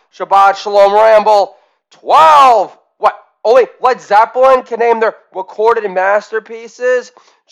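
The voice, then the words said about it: Projecting louder than usual. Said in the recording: “My voice is definitely projecting louder than usual.”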